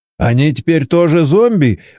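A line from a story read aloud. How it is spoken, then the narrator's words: Nervous laugh. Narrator (Russian): Борис нервно хохотнул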